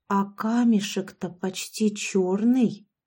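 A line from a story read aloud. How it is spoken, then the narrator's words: Whisper. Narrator (Russian): прошептала я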